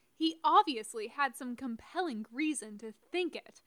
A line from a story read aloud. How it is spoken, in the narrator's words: Lilith snapped back